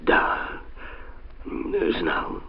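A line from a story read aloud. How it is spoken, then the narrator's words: Frightened mutter. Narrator (Russian): пробормотал он, слишком сильно испугавшись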